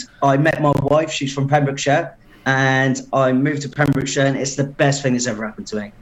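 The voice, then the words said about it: English Portsmouth accent. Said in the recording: “you can tell by my accent. I'm not from originally around it, from Portsmouth originally”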